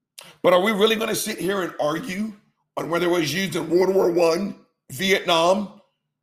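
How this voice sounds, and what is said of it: Hoarse, strained voice. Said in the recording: “Damn, my throat feels like shit. I'm losing my voice, I think. I sound sexy,”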